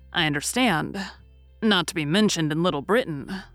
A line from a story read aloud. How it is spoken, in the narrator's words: said